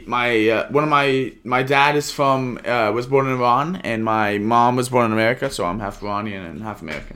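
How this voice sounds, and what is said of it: British accent. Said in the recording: “is that accent, is that British ... It's British.”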